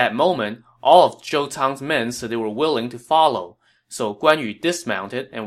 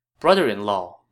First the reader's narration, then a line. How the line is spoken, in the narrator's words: Lady Gan said